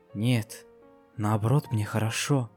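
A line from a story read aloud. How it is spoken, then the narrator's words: Soft quiet reply. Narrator (Russian): тихонько ответила единорожка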